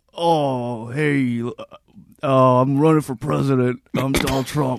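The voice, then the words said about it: Bad impression of another person's voice. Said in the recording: “his impersonation ... let me hear Donald Trump ... it's a bad impersonation”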